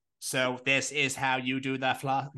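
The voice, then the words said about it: Robotic voice. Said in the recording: “Why do I sound like a robot?”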